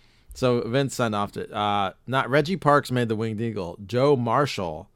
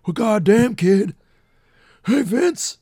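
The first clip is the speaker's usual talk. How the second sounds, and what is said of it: Imitates another person's voice. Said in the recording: “That's my Austin... It's awful.”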